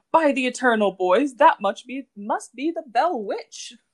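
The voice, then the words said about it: Put-on Southern US accent, old-lady voice. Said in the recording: “try and do a Southern accent ... I was like an old grandma”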